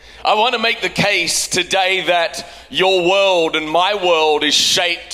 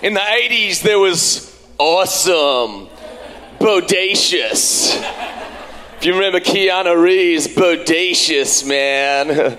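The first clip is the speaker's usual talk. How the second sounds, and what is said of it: Bad put-on Californian American accent. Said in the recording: “That was my bad Californian American accent.”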